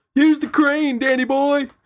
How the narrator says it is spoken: somebody in the background yells out

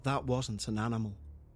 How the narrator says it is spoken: under his breath, said

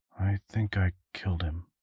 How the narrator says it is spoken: he mumbled

